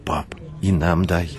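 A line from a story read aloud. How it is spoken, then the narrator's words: Loud excited whisper. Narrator (Russian): громко шепнул Тимофей, с восторгом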